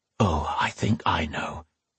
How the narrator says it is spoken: Brian whispered

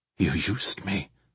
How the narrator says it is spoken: Ross mumbled

